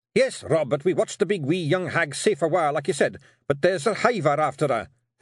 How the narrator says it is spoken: Hamish blurted out

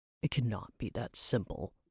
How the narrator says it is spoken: he grumbled

